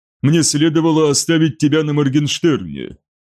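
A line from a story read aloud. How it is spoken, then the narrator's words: Cyclops snort. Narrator (Russian): хмыкнул циклоп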